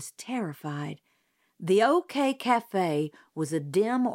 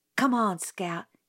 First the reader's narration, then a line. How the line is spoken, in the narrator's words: he whispered